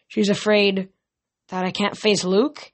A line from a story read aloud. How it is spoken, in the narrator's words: she said miserably